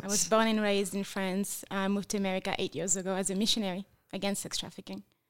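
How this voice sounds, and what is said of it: French accent. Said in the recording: “I detect an accent ... Yes, I'm from France.”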